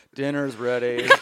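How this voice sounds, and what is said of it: Flat monotone delivery. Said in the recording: “A monotone housewife.”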